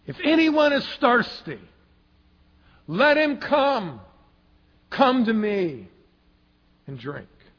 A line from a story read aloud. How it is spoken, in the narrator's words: Jesus stood and cried with a loud voice, saying